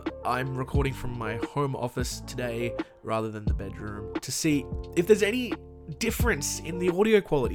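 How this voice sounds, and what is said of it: Rough, slightly impaired voice. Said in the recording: “I got COVID and I didn't have a voice ... I'm just getting over COVID, so my voice is a little shitty”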